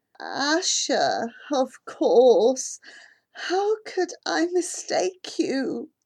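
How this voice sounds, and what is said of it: Raspy, slow, tired voice. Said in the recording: “His voice is raspy, each word forming slowly.”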